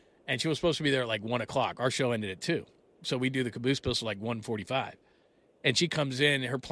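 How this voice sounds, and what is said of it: Usual voice. Nothing is said of it.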